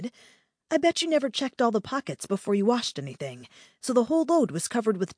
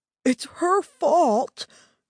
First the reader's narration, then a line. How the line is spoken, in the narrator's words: Terry whined